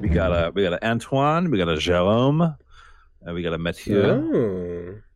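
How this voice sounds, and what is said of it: Bad put-on French accent. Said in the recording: “your French accents are awful”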